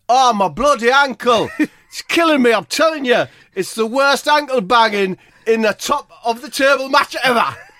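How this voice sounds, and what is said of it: Impression of Marcelo. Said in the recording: “That's a good impression of Marcelo, isn't it? ... Perfect. Close my eyes, it's like he's in the room.”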